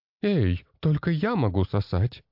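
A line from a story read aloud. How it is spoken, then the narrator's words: Laughing. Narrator (Russian): рассмеялась она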